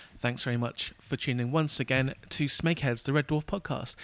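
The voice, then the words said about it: Slightly weird, sick-sounding voice. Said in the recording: “my voice sounds a little bit weird and maybe a slice sexier ... because I'm a bit sick”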